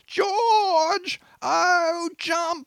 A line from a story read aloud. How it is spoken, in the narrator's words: another wild screech